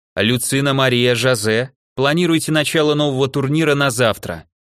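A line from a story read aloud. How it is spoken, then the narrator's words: Loud. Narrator (Russian): громко сказала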